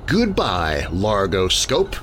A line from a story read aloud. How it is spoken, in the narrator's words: I said grimly